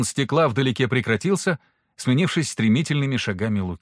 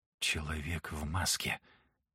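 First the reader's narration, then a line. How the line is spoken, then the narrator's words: Hurried whisper. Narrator (Russian): только и успел прошептать Алексис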